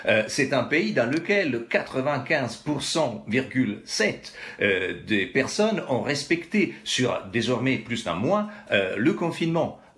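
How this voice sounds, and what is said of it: Italian accent speaking French. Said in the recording (French): “l'Italie, d'où je viens ... On peut deviner mon accent”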